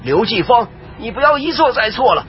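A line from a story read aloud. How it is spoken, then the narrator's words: Shouting, cutting in. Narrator (Chinese): 穆苍红则立即插声而喊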